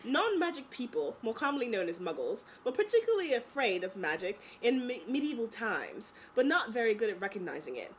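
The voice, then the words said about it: Bad put-on British accent. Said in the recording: “really bad British accent that is just really fun to do ... this British accent”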